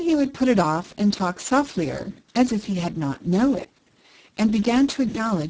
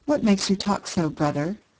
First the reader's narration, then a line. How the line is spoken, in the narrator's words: said the lady